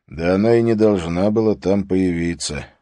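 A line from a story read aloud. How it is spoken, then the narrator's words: Sigh. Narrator (Russian): вздохнул Харри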